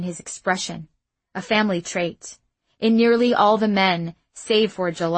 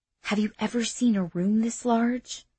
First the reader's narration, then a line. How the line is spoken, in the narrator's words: Rahim whispered as he gazed in awe